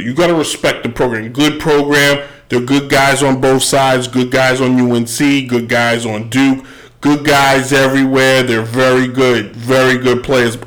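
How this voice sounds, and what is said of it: Imitates another person's voice. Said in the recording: “my best Trump impression.”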